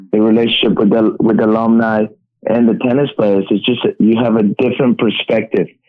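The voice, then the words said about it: Mexican accent. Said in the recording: “Mexican accent”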